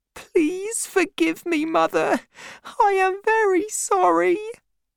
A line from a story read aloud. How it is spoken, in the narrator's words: I sobbed